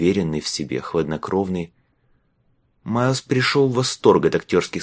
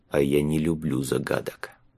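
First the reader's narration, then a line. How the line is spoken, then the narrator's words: Very quiet, to himself. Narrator (Russian): он прибавил очень тихо, почти про себя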